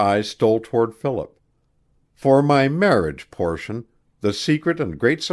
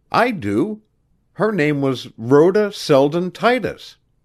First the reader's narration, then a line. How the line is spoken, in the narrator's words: he cried